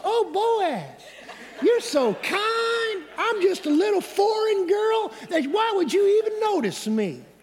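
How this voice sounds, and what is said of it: Soft slow Southern drawl. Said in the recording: “in her softest, kindest voice, maybe a little slow southern draw, a southern Judah accent”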